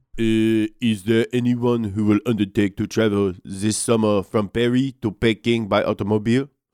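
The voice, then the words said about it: Put-on French accent. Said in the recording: “could you give me your best French accent here?”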